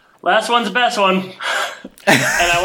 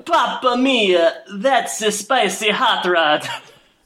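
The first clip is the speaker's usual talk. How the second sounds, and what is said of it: Thick put-on Italian accent. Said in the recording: “I want to apologize to any Italian listeners we have out there because I'm going to throw on a thick accent.”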